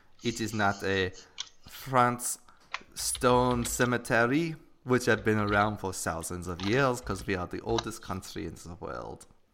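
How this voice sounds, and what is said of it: Bad French accent drifting German. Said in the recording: “I have a bad French accent ... It's kind of like turning into a German accent.”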